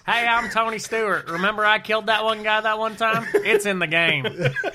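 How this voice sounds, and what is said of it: Southern American accent impression. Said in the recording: “they all had Southern accents”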